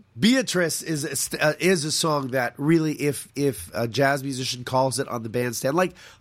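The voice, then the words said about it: Raspy voice. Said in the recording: “I apologize for my raspy voice.”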